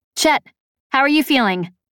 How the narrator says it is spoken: I asked him

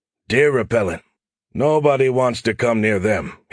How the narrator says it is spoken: chuckled

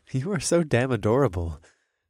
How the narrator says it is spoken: I chuckled

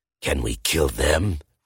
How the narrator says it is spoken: Rufus snarls

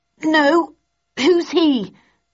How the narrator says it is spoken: I gasped as I heaved the heavy oak table

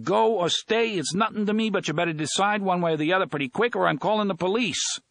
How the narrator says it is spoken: McGursky came out of her place and yelled

